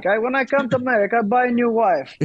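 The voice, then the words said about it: Exaggerated comic Borat-style accent. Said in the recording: “With a Borat accent.”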